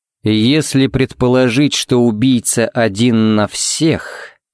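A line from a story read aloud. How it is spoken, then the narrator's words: Thoughtful drawl. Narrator (Russian): протянул Хари задумчиво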